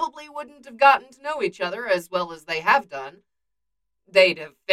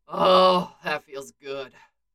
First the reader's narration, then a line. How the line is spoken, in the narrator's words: Bucky groans